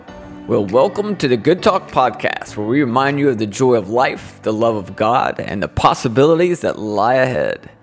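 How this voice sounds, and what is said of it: Exaggerated radio announcer voice. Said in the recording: “That was terrible, wasn't it? ... like a train conductor ... That was supposed to be like my radio announcer voice.”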